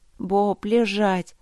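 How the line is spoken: Grumbling. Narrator (Russian): проворчала я

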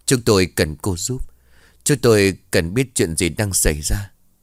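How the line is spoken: Anxious, slightly trembling man. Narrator (Vietnamese): Một người đàn ông trung niên, giọng có chút run rẩy vì lo lắng

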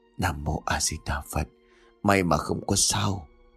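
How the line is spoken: Murmured prayer. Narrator (Vietnamese): Sư thầy tự hành chắp tay lại lẩm bẩm

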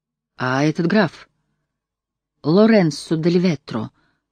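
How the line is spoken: Uncertain. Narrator (Russian): Начал он неуверенно

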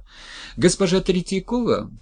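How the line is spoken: Nervous male shout. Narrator (Russian): прокричал нервный мужской голос

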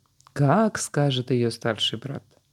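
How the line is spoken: Laughing. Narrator (Russian): засмеялся

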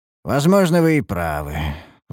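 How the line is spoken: Sighing. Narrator (Russian): вздохнул я

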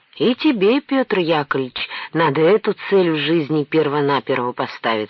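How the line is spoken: Plain. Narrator (Russian): сказал Кольцов

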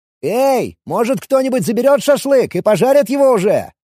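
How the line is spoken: Shout. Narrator (Russian): крикнул я

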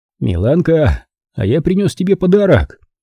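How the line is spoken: Cheerful loud announcement. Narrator (Russian): Весело и громко объявил

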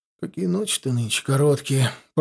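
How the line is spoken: Grumbling. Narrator (Russian): проворчал со своего топчина Федот

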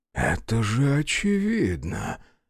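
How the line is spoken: Whispered. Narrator (Russian): прошептал Хайнштейн

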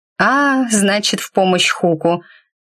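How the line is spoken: Drawling. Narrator (Russian): протянула она

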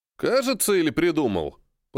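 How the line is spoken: Grumble. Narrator (Russian): Проворчал Серый

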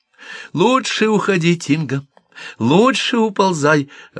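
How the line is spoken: Snake's joyful advice. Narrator (Russian): радостно советовала змея Син-Симила

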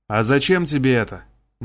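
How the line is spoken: Gloomy question. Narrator (Russian): мрачно спросил король

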